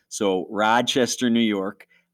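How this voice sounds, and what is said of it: Exaggerated Rochester accent, stretched vowels. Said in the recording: “I'll say it with my best Rochesterian accent. Every O with a Rochesterian accent is translated into 5 to 6 A's.”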